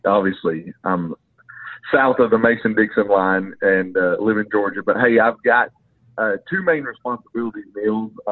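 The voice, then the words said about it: Long Island accent. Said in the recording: “you also have a unique accent ... The award for the best accent ever on this podcast ... my Long Island accent”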